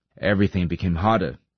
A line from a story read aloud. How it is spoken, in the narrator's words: he said